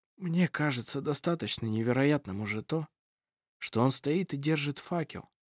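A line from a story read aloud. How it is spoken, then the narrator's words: Quiet mumble. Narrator (Russian): тихо пробормотал Ировар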